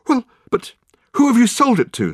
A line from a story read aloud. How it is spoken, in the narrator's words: spluttered Michael